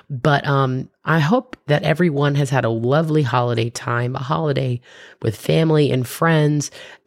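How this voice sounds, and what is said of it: Slightly wonky, off-sounding voice. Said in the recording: “I uh, had a little bit of an allergy attack, and that's why my voice is a little wonky.”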